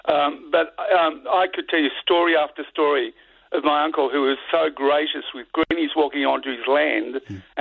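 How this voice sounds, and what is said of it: Voice sounds a bit off. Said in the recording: “my voice is a bit off all of a sudden tonight”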